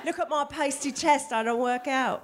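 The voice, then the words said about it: Put-on British accent. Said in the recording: “That's a British accent.”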